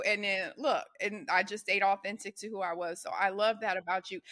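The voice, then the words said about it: Southern accent with a slight twang. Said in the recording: “I have a a southern accent i you know i have a little twang”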